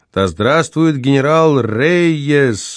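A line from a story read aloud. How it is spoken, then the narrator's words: Crowd yelling. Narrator (Russian): вопили другие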